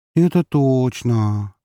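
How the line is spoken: Envious sighing chorus. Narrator (Russian): завистливым хором вздохнули

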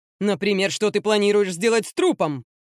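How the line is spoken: Barked. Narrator (Russian): рявкнул Силучи

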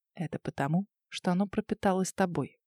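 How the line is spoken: Close whisper. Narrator (Russian): прошептал он прямо у лица

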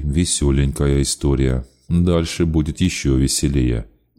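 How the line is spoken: Grim. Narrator (Russian): мрачно пообещал Аверьян

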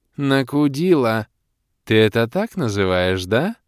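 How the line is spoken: Voluptuous drawl, demoness. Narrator (Russian): Сладострастно протянула демоница

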